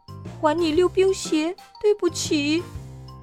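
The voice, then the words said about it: Quiet, tearful apology. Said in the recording (Chinese): “皮皮小声说着，可是话还没说完，他就哭了起来”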